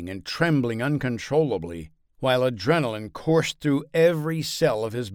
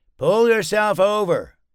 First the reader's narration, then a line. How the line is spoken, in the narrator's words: Chris called out to him